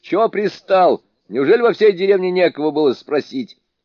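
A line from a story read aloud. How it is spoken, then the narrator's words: Rude shout, young man. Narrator (Russian): парень грубо ... крикнул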